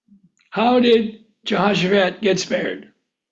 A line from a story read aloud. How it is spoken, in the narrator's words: He cried out